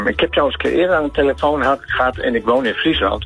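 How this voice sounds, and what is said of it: Groningen regional Dutch accent. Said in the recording (Dutch): “Ik heb een Gronings accent. ... Oh ja, ja, ik hoor het nu.”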